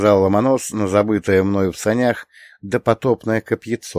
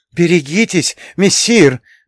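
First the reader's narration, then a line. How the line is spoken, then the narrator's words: Frightened squeal. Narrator (Russian): заверещал Матроскин, испуганно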